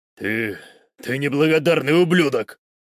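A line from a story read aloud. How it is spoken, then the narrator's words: Growled. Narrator (Russian): прорычал он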